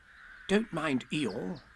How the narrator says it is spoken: whispered Rabbit to Pooh

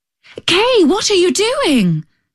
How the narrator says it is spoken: cried the little girl

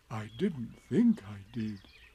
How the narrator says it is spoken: said Pooh anxiously

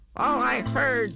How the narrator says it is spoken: snapped the big kangaroo

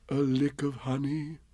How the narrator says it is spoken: murmured Bear to himself

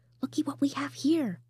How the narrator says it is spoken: whispered the deer

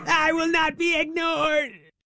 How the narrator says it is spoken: shouted Alabaster Zero, right in the face of his sleeping vampire cat, Tabby Tallulah

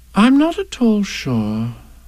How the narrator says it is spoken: said Kanga in a thoughtful voice

